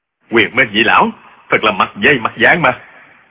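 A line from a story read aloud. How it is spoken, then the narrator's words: Shocked shout. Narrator (Vietnamese): Trương Du Kỵ cá kinh, quát lên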